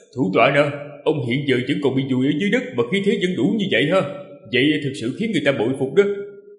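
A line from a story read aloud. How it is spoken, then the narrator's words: Gleeful laughter. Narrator (Vietnamese): Ninh Khuyết lại bật cười khoái chí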